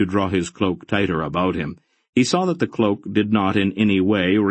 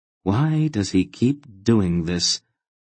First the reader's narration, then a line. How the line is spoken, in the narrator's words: Aunt Paul asked sadly